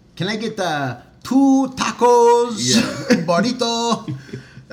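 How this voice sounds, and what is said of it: Put-on Hispanic accent. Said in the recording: “from like Hispanic people? When they have an accent, why do we want to speak with an accent? ... Oh, I do. I do that too.”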